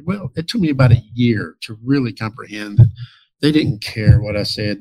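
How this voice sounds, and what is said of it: Scottish accent. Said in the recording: “They just wanted to hear this accent... all the way in Scotland”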